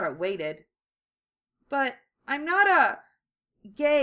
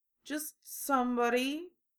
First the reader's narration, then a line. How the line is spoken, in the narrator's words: he mumbled